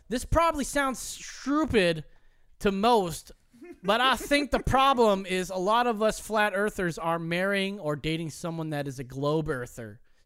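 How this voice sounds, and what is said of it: Reads in a funny voice. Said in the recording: “we're going to read them in a funny voice.”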